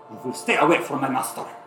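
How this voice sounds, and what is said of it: Character voice with thick accent. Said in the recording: “you hear him speak in a like this thick, thick accent.”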